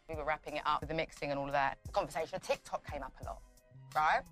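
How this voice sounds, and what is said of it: Speaks with a noticeable accent. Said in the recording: “I love her accent.”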